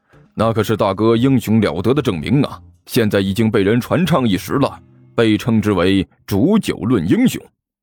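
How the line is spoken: Hearty laugh. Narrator (Chinese): 关小雨哈哈一笑

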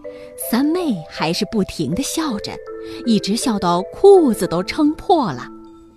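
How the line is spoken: Sighing. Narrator (Chinese): 胖胖的仆人一面叹气，一面对士兵说

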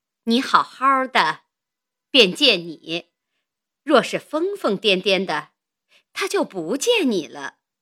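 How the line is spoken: Suppressing laughter. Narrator (Chinese): 便忍笑说道

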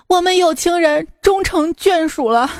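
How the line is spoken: Sobbing bitterly. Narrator (Chinese): 梁山伯和祝英台，他们俩抱头痛哭

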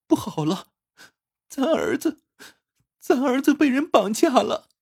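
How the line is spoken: Crying. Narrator (Chinese): 妻子突然哭着

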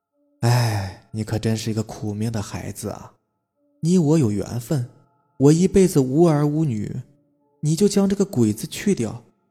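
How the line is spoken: Smiling old woman. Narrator (Chinese): 鬼婆婆微笑着说

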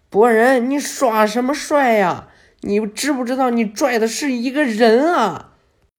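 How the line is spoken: Shouting. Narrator (Chinese): 露台还在路面上喊呢

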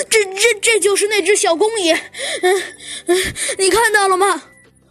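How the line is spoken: Tearful whining. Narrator (Chinese): 他继续哭丧着说

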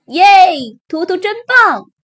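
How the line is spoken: Chicks shouting. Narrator (Chinese): 小鸡们转着圈喊着

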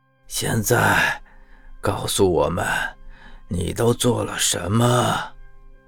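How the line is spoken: Soft gentle voice. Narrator (Chinese): 林冕柔声道

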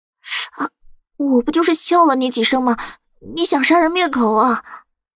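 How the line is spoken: Pained, through gritted teeth. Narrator (Chinese): 苏黎疼得嘶嘶直叫，咬牙切齿道

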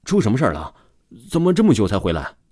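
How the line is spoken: Hurried question. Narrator (Chinese): 马教练立马就坐了起来，急忙问道

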